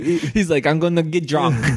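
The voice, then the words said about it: Put-on Japanese accent. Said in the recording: “Excuse my Japanese accent.”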